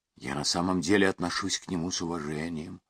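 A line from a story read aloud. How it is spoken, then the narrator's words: Plain. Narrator (Russian): сказала Сюзанна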